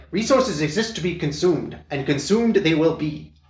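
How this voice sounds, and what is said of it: Haughty imitated character voice. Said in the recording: “a good impersonation ... That is a good impersonation of Morgan ... it's only even haughtier than you remember”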